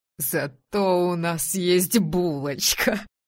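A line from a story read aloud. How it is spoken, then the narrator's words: Breathed out. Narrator (Russian): выдохнул он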